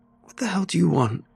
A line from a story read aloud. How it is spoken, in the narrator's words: I squeaked through the tight grip